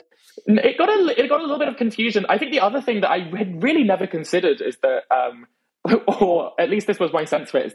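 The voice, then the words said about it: British accent. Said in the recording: “my accent, I think, in the UK ... there's a kind of sense of intellectualism to a British voice”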